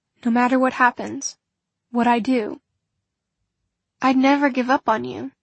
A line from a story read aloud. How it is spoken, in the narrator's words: she said